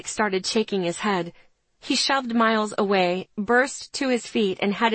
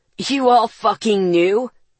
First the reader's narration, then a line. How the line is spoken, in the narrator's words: Ethan growled